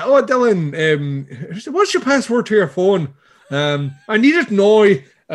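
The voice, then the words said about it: Poor put-on Northern Irish accent. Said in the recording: “Northern it's, Ireland. ... your Irish accent is terrible.”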